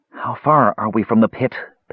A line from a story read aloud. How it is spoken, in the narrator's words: panted Brandella after several hours of hard labor